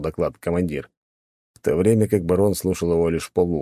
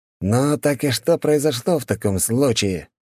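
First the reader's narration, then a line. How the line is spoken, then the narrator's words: Growling. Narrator (Russian): снова рыкнул Гришанов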